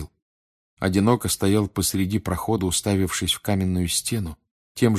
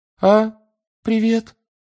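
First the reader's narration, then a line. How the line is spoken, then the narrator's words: Unusually high voice. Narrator (Russian): сказал непривычно высоким голосом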